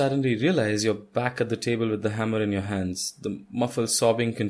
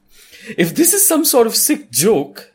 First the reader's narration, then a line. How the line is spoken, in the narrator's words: you say indignantly